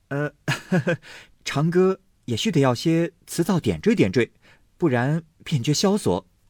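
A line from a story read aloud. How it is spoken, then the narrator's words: Laughing. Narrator (Chinese): 宝玉笑道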